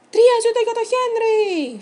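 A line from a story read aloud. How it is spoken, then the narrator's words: Group shout. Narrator (Greek): φώναξαν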